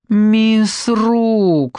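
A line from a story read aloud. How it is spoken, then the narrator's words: Suffering tone. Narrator (Russian): начал он страдальческим тоном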